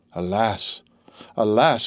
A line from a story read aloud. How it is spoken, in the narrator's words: murmured he